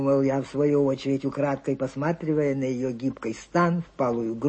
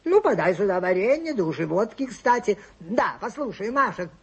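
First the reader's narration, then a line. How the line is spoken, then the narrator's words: Shouting after her. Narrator (Russian): закричал он ей вслед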